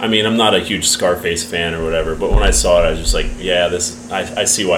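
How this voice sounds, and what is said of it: Usual voice. Nothing is said of it.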